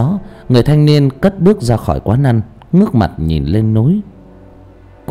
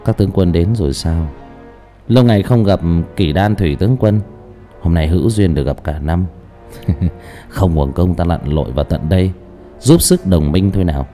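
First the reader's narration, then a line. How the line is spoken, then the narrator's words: Smirking eerie mutter. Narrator (Vietnamese): người thanh niên đội mũ đen cười nhếch mép, một nụ cười ma mị và lẩm bẩm một câu nói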